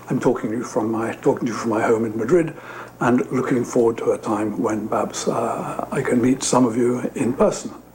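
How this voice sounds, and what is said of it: British accent. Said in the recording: “As you can hear from my accent, I'm British.”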